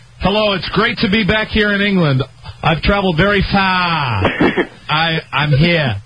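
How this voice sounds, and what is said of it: Kevin Costner impression, fake accent. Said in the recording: “Kevin Costner's accent ... his accent was sort of really fake ... Or lack of accent?”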